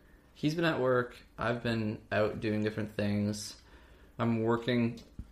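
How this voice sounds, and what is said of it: Usual voice. Nothing is said of it.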